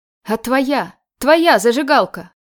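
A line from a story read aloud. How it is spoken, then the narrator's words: Sudden shout. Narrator (Russian): Вдруг закричал Казик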